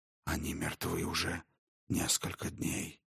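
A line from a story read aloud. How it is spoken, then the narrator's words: Whisper. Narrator (Russian): шепот Дрогана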